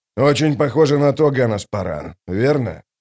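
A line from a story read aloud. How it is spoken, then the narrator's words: Sighing captain. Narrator (Russian): Капитан вздохнул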